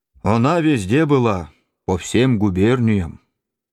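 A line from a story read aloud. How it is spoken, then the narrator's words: Confident bass, beggar. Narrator (Russian): нищий говорит басом уверенно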